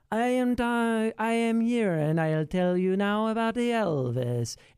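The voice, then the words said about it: Weird, unidentifiable put-on accent. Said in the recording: “Tom Hanks doing the most insane accent I've ever heard in my life ... this accent that I don't know what it is ... It's this weird accent”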